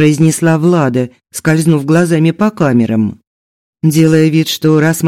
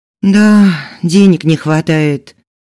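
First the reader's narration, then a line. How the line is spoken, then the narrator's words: Sighing reply. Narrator (Russian): вздохнула в ответ Влада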